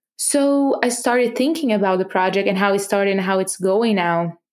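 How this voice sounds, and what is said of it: Non-native English accent. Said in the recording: “There's no way I'm going to hide my accent. You're going to hear my accent.”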